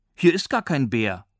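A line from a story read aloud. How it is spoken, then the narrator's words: Girl calling out. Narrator (German): rief eine Mädchenstimme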